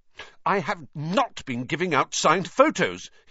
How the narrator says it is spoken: he said hotly

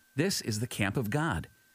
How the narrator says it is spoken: When Jacob saw them, he exclaimed

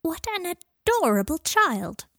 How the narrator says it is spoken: cried an old witch

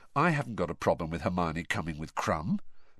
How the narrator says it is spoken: said Harry quietly

